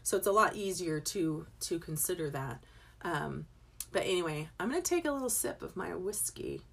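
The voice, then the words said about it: Raspy voice. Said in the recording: “My voice is getting raspy.”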